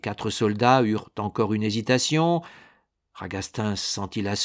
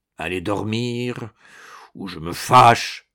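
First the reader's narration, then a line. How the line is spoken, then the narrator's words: Grumbling. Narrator (French): bougonna-t-il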